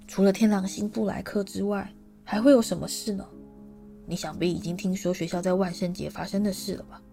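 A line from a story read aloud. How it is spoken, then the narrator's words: Hushed voice. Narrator (Chinese): 夫子 他压低声音说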